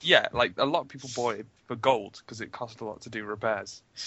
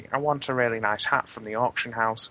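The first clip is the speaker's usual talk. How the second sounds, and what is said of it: Put-on British housewife gamer voice. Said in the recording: “your WoW player voice ... I've never heard something said like that in a British accent ... My pretend voice for everything, really ... That was like your housewife WoW player”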